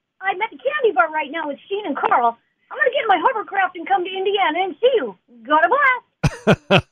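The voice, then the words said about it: Jimmy Neutron cartoon voice. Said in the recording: “did the voice ... Jimmy Neutron from Nickelodeon ... the voice of Jimmy Neutron”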